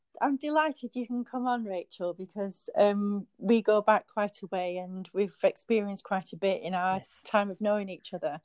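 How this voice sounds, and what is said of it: Strong northern English accent. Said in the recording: “my very northern out there accent ... you've got a lovely accent”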